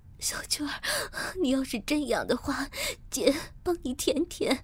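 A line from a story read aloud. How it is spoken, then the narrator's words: Panting. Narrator (Chinese): 我喘息着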